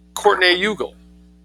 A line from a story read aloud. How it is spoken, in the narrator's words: said Elaine